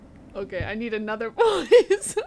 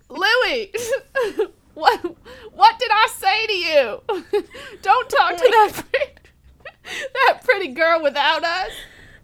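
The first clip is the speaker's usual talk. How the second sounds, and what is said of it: Put-on southern accent. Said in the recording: “With a southern accent? ... Yes, I guess so.”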